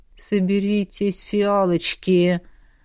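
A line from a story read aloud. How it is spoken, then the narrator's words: Mentor hissing telepathically. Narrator (Russian): Мысленно процедила наставница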